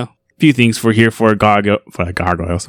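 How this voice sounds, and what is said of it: Boston accent slipping out. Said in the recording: “Did my Boston accent come out?”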